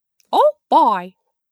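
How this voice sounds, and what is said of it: Cartoon mouse character voice impression. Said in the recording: “my Mickey impression ... That was not good. ... Didn't round out the O”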